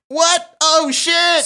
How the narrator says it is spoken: screamed Mark

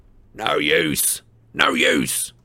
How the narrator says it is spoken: snarled the goblin

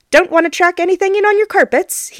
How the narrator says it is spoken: he announces

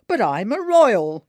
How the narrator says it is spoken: bellows

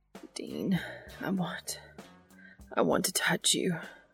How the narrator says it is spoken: Cass whimpers

